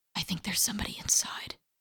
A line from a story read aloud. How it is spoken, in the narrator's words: he whispered